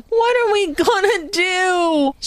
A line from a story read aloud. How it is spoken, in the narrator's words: she wailed